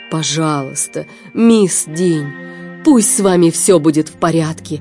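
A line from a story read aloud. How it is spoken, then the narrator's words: Pleading. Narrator (Russian): взмолился СМИ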